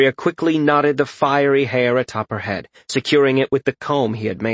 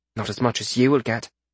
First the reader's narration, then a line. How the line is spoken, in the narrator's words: she muttered